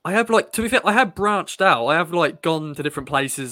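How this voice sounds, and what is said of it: Strong Suffolk English accent. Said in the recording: “you sound more Suffolk than anybody else in our entire office... nobody has as strong an accent as you”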